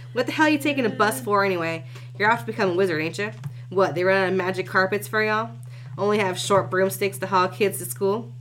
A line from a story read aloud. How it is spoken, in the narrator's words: He said that last part with a nervous chuckle